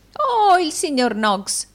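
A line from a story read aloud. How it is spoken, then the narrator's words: Exclaiming. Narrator (Italian): esclamò Arturo Gride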